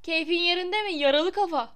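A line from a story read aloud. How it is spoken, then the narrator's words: Shouted. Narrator (Turkish): diye haykırdı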